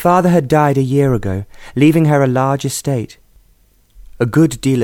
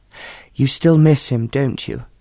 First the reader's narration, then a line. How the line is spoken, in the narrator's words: Aunt Alice said gently